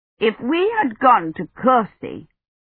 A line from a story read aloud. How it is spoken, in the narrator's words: Eloise nearly snapped her head off